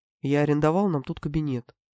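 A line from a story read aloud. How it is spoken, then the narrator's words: Mysterious excited whisper. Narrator (Russian): загадочно и возбужденно шепнул Феликс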